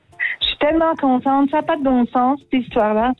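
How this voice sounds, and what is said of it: Imitates another person's voice. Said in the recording (French): “C'est Garou. C'était Céline Dion.”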